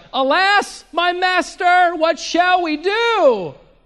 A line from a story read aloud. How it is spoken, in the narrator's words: two different men, they both cried out to Elisha